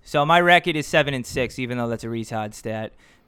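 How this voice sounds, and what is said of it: Put-on Boston accent. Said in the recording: “in a Boston accent just for fun because I don't do it”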